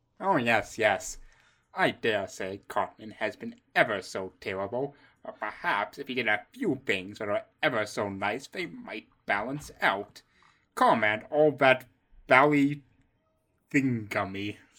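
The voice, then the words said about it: British accent. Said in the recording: “It's a great British accent.”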